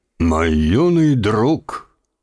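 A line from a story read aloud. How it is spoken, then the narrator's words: Solemn old man. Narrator (Russian): торжественно произнес старик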